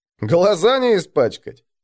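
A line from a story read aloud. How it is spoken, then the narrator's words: Chuckling. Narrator (Russian): хохотнул новогородец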